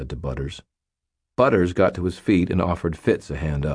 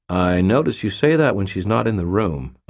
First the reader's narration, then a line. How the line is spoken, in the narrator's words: said